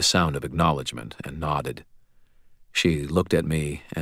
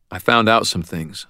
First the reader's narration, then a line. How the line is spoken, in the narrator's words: I said